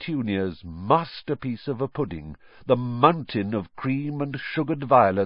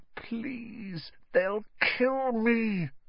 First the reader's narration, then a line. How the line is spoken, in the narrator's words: croaked Harry